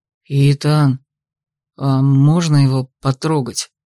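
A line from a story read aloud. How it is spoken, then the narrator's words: Trembling voice. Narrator (Russian): попросил вдруг Каю дрогнувшим голосом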